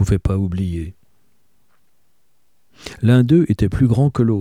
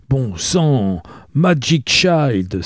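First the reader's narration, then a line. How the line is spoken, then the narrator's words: Exclaimed. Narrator (French): s'exclama-t-il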